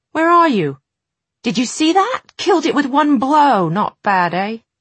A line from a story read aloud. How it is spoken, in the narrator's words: Will's shout